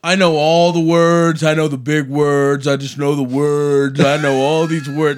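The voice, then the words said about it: Imitates another person's voice. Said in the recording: “Did you hear Donald Trump talk about words? ... He's just like”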